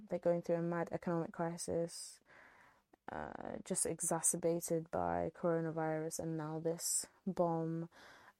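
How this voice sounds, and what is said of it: British accent. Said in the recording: “if you can't tell from my accent,... I'm British through and through”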